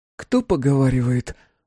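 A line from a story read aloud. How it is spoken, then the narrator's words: Breathless exhale. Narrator (Russian): выдохнула я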